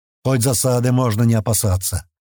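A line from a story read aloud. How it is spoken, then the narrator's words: Grumbling. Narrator (Russian): проворчал полусотник Гилиус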